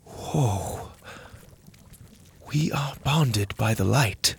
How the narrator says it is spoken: Mora whispered

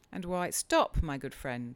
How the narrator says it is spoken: I cried

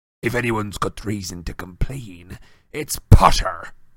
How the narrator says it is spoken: growled Moody

